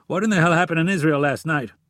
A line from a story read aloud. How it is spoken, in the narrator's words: With sweat pouring from his face, he snapped